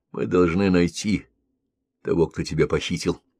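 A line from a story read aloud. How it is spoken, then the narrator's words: Completely sober voice. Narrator (Russian): сказал он совершенно трезвым голосом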